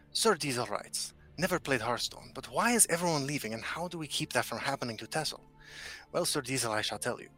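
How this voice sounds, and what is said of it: Antonio Banderas accent impression. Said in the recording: “I think I can do Antonio Banderas' accent perfectly. ... So I'll answer the next question as Antonio Banderas.”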